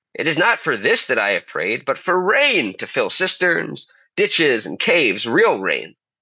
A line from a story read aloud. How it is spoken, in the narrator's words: he exclaimed